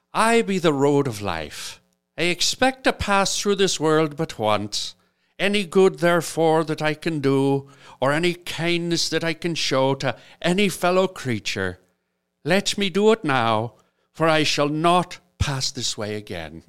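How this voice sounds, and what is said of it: Put-on Irish accent. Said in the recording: “Do you want an Irish accent or just regular? ... obviously an Irish accent.”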